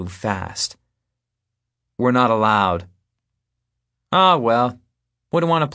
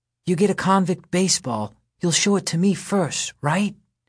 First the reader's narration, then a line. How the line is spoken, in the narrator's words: Scout whispers